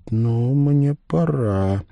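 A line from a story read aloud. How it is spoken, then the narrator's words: Quiet, expressionless. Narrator (Russian): тихо говорит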